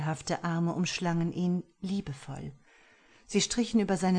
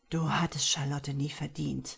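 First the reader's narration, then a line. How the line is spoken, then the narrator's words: Low menacing murmur. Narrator (German): raunte er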